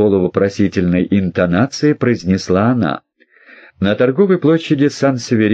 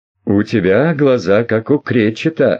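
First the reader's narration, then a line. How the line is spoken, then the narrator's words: Laughing. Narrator (Russian): рассмеялась Алекс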